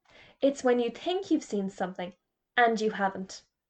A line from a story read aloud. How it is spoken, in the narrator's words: said Hamish Bigmore